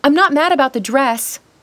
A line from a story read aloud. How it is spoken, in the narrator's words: Carrie yelled